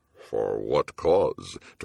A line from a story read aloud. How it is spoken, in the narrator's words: Torgathon rumbled, splashing feebly